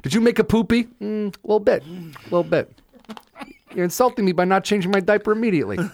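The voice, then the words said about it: Babyish imitation of another person's voice. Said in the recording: “This is my impression of baby De Niro.”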